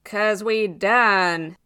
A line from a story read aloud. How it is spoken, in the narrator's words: Rose growled